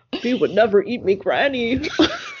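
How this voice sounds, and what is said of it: Cookie Monster impression. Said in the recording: “I'm not going to do a good Cookie Monster impression. ... That's pretty spot on.”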